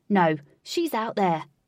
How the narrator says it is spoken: barked John Greaves

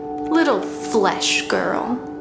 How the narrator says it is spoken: the moonbeam sneered

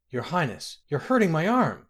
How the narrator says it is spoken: Gaina cried

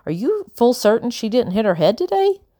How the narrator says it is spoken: Becky laughed, and the laugh caught in her throat and bubbled into a cough

